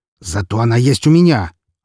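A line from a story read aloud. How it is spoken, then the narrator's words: Snapping retort. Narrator (Russian): огрызнулся он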